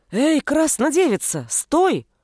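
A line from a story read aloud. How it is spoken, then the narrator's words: Growling. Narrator (Russian): рычала первая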